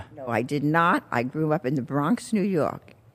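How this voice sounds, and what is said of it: Bronx New York accent. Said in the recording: “In case you thought this was a Southern accent. But this is where I was from, the Bronx.”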